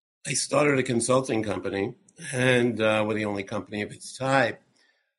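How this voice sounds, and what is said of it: Slightly sick-sounding voice. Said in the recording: “excuse my voice, I have a little bit of a cold,”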